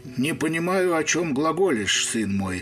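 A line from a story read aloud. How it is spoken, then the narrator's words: Dejected mumble. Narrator (Russian): промямлил мошенник упавшим голосом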